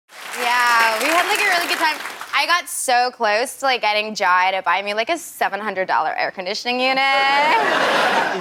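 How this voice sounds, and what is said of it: Put-on American Valley Girl accent. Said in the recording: “my American accent kind of changed a little bit into Callie from the Valley ... the Valley Girl accent ... she is uncannily good”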